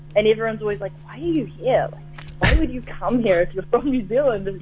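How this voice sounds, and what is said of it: New Zealand accent. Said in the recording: “the accent is just so weird to them”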